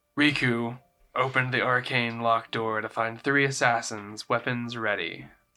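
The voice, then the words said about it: Dramatic narrating voice. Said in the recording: “Your normal dramatic voice.”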